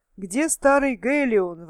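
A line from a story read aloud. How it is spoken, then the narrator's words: Exclaiming. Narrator (Russian): воскликнул один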